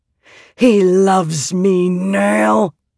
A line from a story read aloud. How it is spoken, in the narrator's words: Mother growled